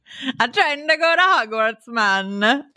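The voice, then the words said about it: Bad put-on Jamaican accent. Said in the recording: “look like a Jamaican wizard ... That was abysmal. ... Oh, that hurt me. That hurt everybody. ... I never said that my accents were good.”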